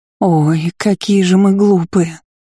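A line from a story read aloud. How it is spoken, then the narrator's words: Moaning. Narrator (Russian): простонала Нерджи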